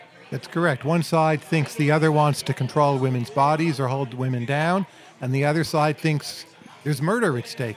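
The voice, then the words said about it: Unusual accent with sing-song prosody. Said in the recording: “what kind of accent you have? That's an interesting... Your voice ... mixture of Germany and New Zealand ... you have an interesting accent ... it's my prosody rather than my accent ... It's a kind of sing-song.”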